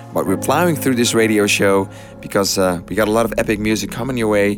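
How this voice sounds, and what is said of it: Hoarse, nearly lost voice. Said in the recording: “as you can hear, I've almost lost my voice from this crazy summer”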